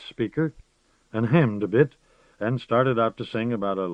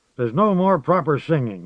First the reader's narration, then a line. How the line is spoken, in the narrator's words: said angrily